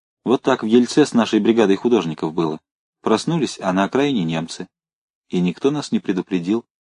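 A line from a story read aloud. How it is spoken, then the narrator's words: Quiet. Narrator (Russian): Женя негромко сказала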